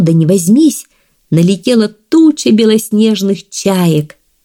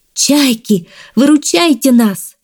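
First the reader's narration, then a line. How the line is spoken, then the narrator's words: Frightened shout. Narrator (Russian): Увидела Мезримей страшную птицу и закричала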